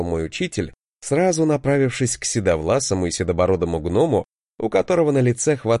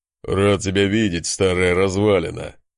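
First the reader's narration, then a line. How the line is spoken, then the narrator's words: Chuckling. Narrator (Russian): хохотнул гном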